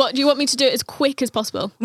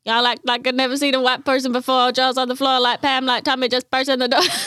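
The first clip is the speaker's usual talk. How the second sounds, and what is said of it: Rapping in put-on American accent. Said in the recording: “What was my accent? ... when English people rap, they put on an American accent.”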